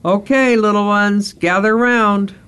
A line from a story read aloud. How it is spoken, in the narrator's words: Serenity called out to the youngsters